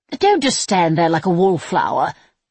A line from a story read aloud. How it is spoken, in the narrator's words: Vianca snapped